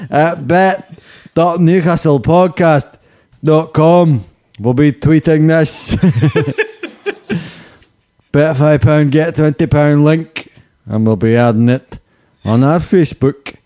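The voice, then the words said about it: Put-on Liverpool Scouse accent. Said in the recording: “So that's my Liverpool accent. ... It's good. ... I felt like I was just by the Mersey.”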